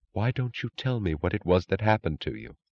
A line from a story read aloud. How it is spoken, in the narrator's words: she whispered